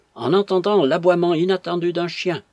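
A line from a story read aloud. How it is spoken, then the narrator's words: Quick exclamation. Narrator (French): s'écria vivement Florence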